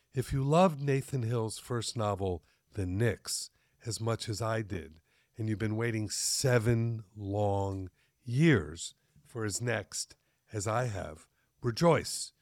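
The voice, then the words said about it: Deep male voice. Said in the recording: “Imagine my deep voice”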